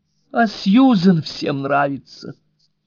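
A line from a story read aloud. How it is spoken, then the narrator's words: Moaning. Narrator (Russian): стонала леди Райс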